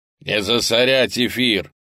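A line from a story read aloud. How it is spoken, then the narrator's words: Bark. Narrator (Russian): рявкнул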